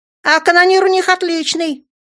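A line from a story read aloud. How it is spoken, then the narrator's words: Joyful yell. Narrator (Russian): радостно завопил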